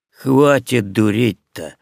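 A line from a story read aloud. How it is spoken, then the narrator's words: Authoritative grumble. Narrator (Russian): по праву старшего заворчал я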